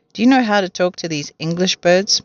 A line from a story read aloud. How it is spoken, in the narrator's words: Mugglewump asked him